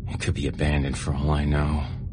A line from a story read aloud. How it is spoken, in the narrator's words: he grumbled